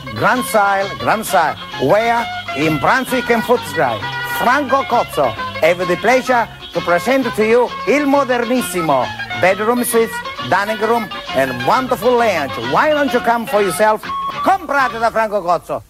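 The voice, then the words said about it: Imitates a salesman's Italian accent. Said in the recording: “you're allowed to do that accent.”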